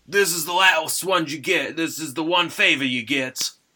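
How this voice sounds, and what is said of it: Kit Harington accent impression. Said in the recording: “That was an amazing Kit Harington accent.”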